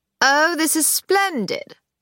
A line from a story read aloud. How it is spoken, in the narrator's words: said Hamster, in a high, educated drawl